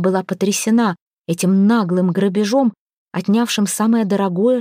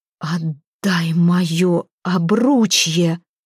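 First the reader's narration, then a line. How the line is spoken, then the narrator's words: Muffled exhale. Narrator (Russian): Глухо выдохнула Хёрдис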